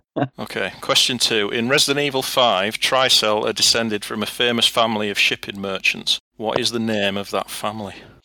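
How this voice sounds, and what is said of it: Northern English accent. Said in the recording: “my common northern accent”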